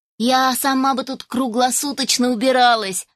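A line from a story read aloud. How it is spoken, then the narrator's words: Laughing. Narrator (Russian): рассмеялась я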